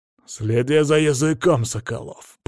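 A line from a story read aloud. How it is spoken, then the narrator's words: Growl. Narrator (Russian): прорычал Карл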